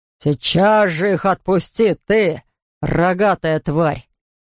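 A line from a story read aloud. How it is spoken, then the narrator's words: Roar. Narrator (Russian): проревел Эрвин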